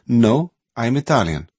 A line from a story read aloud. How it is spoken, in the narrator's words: Tonino said firmly